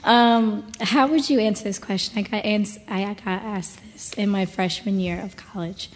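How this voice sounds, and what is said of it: Hoarse, strained voice. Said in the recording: “I lost my voice yesterday, so bear with me.”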